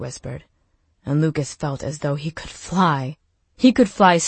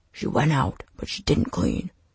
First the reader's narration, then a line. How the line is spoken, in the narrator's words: Marsh said, his voice low but laced with words sharp enough to pierce Lucas's dreams